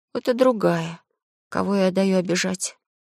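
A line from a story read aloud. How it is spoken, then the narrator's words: Gentle, calm scolding. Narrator (Russian): Мэри Джейн опять принялась за сестру, но так мягко, спокойно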